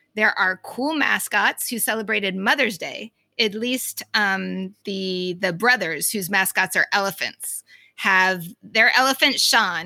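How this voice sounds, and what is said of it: Boston accent. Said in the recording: “Are you saying Marsha with your Boston accent ... I'm definitely saying it with my Boston accent.”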